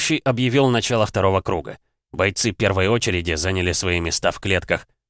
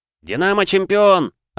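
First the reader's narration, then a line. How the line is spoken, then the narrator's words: Son shouting loudest. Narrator (Russian): закричал сын Людмилы громче всех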